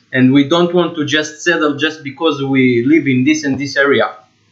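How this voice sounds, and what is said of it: Israeli accent. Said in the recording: “we both have accent, I'm coming from Israel”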